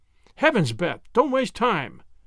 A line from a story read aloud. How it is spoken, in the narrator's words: exclaimed Wemple